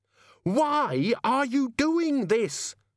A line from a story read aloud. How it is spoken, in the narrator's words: Susan screamed